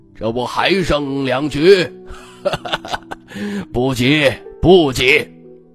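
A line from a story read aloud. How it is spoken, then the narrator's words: Hearty laughter. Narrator (Chinese): 徐潇哈哈大笑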